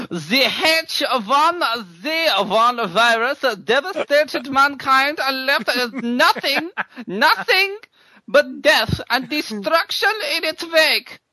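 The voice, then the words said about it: Put-on German accent. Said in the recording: “So what accent should I give? What accent? ... German.”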